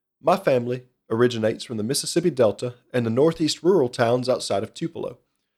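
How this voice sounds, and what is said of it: Rural Southern American accent. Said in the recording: “my accent sound like I was raised in the middle of the woods in rural who knows where? ... I still retain a slight Midwestern accent when I get anxious and upset, I have been fully vetted into Southern living”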